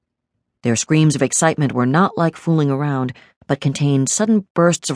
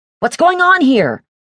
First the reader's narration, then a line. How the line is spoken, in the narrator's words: she shouted